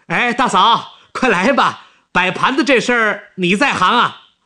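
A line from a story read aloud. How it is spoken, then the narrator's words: Shouting. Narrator (Chinese): 王一民说完，又对跑进东屋的石玉芳喊起来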